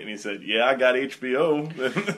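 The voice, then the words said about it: Poor Morgan Freeman impression. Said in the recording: “That was a terrible Morgan Freeman impression.”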